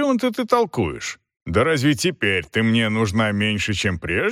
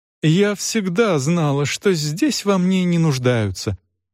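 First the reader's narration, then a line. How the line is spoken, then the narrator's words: Wailing, whimpering. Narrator (Russian): возопила жалобно хныча миссис Гаммидж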